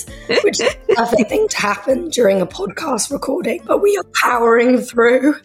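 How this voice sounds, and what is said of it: Voice nearly gone. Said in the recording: “I've lost my voice”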